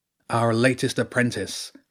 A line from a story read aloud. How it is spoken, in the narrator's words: the cowboy called out